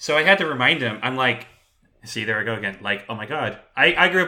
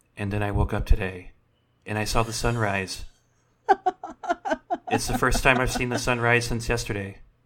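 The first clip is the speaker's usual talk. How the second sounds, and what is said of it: Soothing public-radio announcer voice. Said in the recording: “my impression of a NPR broadcast on a weekend”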